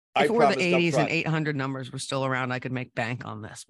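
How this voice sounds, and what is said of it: Low, sultry radio-host voice. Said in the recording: “You sound fantastic. ... late night FM radio host DJ voice. It's sultry.”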